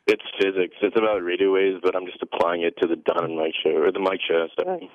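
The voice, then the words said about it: Flat, low-energy voice. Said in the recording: “Pick up the energy just a little bit, won't you, please? ... my voice is, I can't help it.”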